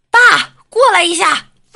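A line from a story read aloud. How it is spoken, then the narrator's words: Shouting at top of voice. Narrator (Chinese): 在厕所扯着嗓子喊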